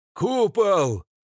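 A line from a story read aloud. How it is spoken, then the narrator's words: Frantic scream. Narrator (Russian): Заорал кто-то истошно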